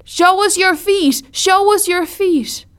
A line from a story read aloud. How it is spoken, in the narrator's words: the kids screamed out the window